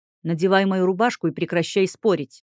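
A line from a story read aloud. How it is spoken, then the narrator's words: Displeased growl. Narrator (Russian): Недовольно рыкнул мужчина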